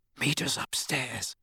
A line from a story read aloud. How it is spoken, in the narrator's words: Harry whispered to Hermione